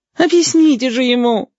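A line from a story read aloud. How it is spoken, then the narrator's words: Groaning, twins together. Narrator (Russian): стонали желтые близнецы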